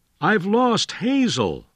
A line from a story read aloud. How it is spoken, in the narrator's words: William Wallace cried to his friend